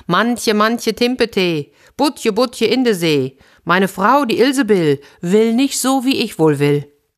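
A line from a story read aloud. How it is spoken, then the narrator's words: Calling out. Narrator (German): Der Fischer rief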